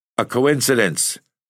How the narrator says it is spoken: stammered the old man

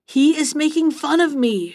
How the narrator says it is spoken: shrieked Coste in a rage

